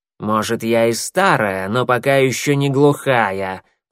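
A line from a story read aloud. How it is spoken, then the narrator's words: Hissing reply. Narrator (Russian): прошипела в ответ Щербатая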